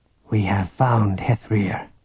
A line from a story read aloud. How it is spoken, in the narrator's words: Relau said softly